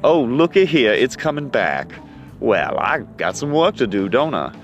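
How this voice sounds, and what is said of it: Southern United States accent. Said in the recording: “my voice has lapsed into the, colorful Southern United States force”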